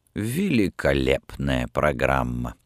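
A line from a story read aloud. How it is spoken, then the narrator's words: Gloomy remark. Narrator (Russian): мрачно заметил Рангони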